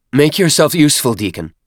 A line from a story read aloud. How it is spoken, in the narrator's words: Chur-Uyar snapped